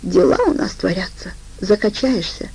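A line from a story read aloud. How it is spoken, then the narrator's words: Quiet reply. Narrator (Russian): ответила она также негромко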